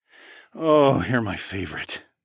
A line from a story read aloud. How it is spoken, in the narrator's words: I sighed